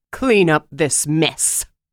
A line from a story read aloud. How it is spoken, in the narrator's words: she snapped at the dungeon master